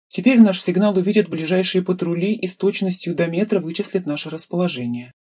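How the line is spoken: Plain. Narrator (Russian): сказал притихшей девушке

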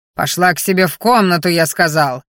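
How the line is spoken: Roar. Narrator (Russian): Взревел он

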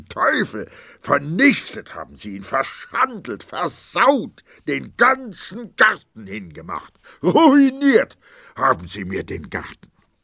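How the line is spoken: Grim furious scream. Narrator (German): zog ein grimmiges Gesicht, schrie

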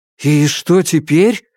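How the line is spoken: Exclaiming. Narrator (Russian): воскликнул я

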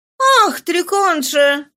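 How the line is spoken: Exclaimed. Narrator (Russian): воскликнула Нана

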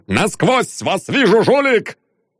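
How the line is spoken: Loud startling bark. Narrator (Russian): Гаркнул Лебедев так, что редкие пассажиры стали испуганно оглядываться

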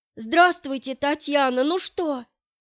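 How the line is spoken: Agitated question. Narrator (Russian): Взволнованным голосом спросила Алевтина Николаевна

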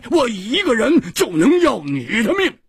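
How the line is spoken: Loud roar. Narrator (Chinese): 胡铁花跳起来大声地吼着

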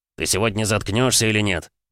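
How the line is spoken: Growl. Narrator (Russian): зарычал Васильев

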